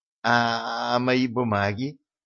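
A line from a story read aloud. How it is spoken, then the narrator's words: Timid question. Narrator (Russian): робко спросила худосочная личность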